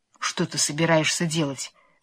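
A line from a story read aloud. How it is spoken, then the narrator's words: Trembling voice. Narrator (Russian): спросил медведь дрожащим голосом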